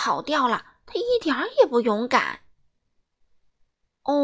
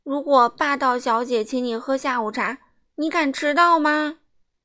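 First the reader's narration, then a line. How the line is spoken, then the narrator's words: Loud answer in unison. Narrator (Chinese): 他们一起大声回答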